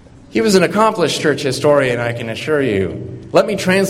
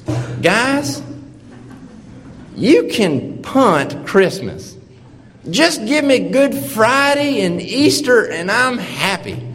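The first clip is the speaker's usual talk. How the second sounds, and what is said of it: Imitated deep Carolina accent. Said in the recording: “a white-haired man with a deep Carolina accent ... I'm about to butcher his accent”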